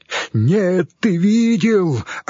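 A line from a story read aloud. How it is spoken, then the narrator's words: Frantic screaming. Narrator (Russian): орал Хорь, как резанный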